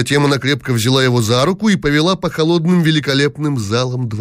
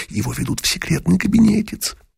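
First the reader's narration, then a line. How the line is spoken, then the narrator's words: Loud girls' whisper. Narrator (Russian): великих княжон, и раздался их громкий шепот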